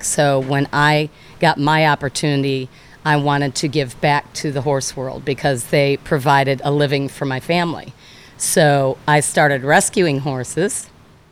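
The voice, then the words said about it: Emotional voice. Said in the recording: “I'm getting emotional. Oh my goodness.”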